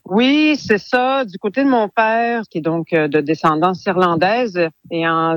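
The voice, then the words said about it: Canadian French accent. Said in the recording (French): “on va vite déceler votre accent canadien”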